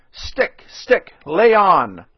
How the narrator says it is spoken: the lad bawled out

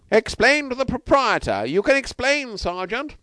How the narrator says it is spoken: shouted King

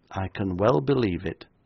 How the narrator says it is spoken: said my friend calmly

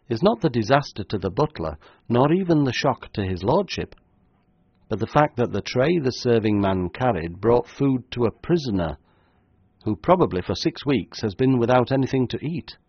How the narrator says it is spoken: I went on calmly

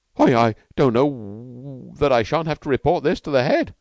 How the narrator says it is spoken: he stammered

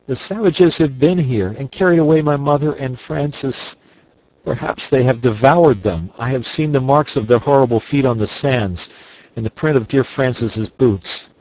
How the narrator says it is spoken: he sobbed out

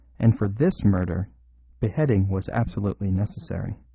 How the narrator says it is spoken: said Brown calmly

